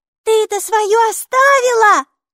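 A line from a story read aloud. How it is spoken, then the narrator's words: Shout. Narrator (Russian): крикнула и Майки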